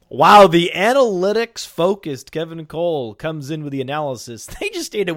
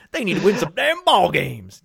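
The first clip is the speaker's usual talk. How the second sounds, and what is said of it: Put-on Southern accent. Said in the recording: “Can you say it with a Southern accent? ... Say it with a Southern accent.”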